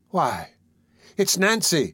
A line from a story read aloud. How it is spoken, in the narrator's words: exclaimed Oliver, in irrepressible astonishment